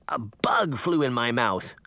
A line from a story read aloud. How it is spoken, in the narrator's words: Sabrina croaked